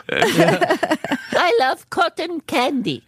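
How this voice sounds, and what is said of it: Carol Kane impression. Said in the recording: “best Carol Kane impression I've ever heard. You got it down.”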